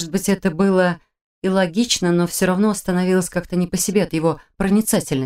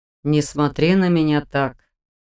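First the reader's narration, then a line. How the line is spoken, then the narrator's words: Snorting. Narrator (Russian): хмыкнул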